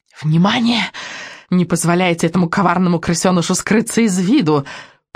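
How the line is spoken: Witch's whisper. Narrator (Russian): прошептала ведьма Экселинор

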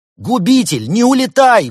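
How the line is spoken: Shouted. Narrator (Russian): выкрикнул великий Хнун

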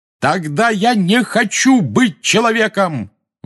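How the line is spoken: Roaring. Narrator (Russian): взревел Гарри

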